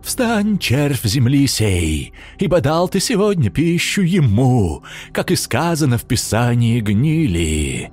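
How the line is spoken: Booming chant. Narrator (Russian): нараспев прогремел бомж

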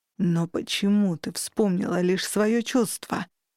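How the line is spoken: Anguished male groan. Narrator (Russian): в сердцах застонал мужчина

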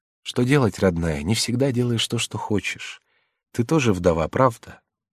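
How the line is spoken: Gentle, affectionate. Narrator (Russian): Жанна ласково сказала

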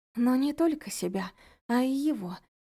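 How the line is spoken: Wounded girl's rasp. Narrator (Russian): прохрипела девушка

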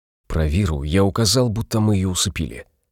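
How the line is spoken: Whisper. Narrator (Russian): прошептал Пол

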